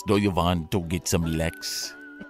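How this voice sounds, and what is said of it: Put-on German accent. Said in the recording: “either a Swedish or a German accent ... because I have German heritage, by the way, I could do this.”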